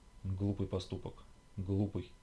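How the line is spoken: Muttering. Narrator (Russian): бормотала Карина

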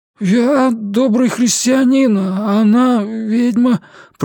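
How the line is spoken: Timid babbling. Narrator (Russian): пролепетал

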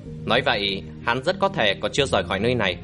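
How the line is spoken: Muttering. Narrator (Vietnamese): Lã Vĩnh Tường lẩm bẩm

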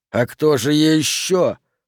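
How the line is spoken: Hiss. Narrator (Russian): послышалось шипение

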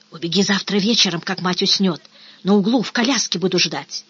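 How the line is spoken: Quick whisper. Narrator (Russian): Успел шепнуть

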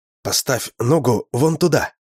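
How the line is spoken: Whispered. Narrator (Russian): прошептал я

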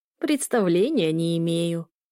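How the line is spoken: Old woman's creaky laugh. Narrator (Russian): скрипуче рассмеялась старушка

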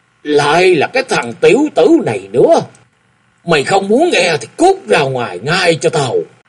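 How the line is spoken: Angry shout. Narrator (Vietnamese): Khúc Thú Thắng đang nghe đến mê mẩn, lại bị Lý Thịnh ngắt ngang, tức giận quát

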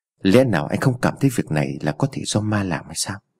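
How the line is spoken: Soft question. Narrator (Vietnamese): Vương Kiện khẽ hỏi

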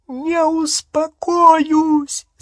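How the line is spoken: Shrill female shriek. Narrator (Russian): завизжала она

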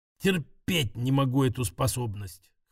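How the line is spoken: Hoarse confession. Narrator (Russian): хрипя призналась Катя

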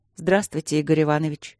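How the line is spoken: Calm. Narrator (Russian): спокойно сказала Дробжик

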